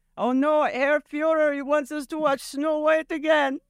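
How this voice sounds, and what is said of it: Put-on German accent. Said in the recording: “I don't know what happened to my accent. It switched from German to... I thought it was good.”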